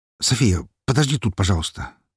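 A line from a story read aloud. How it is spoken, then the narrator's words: Hurried. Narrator (Russian): торопливо сказал ей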